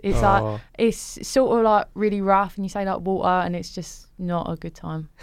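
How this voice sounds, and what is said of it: Put-on Essex accent. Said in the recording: “can she do an Essex accent? ... continue the conversation in Essex ... That's really good.”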